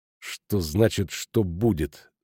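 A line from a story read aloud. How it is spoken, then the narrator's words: Through gritted teeth. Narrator (Russian): сквозь зубы ответил ему Иеремеш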